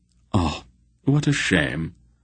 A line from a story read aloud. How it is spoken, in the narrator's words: Silk sighed regretfully